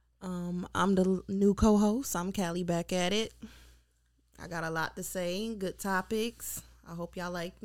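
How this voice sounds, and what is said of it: Put-on smooth radio announcer voice. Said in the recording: “radio voice? Why you can't use your regular voice? Sounds different ... You're giving me interview vibes ... Phone sex operator?”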